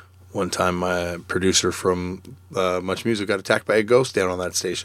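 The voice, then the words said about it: Slightly hoarse voice. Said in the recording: “I would like to apologize for my voice ... my voice is a little hoarse”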